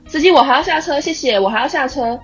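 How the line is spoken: Loud. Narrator (Chinese): 对司机大声说

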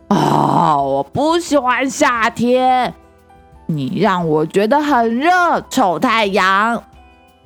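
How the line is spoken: Complaining. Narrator (Chinese): 吼吼熊也会抱怨的说

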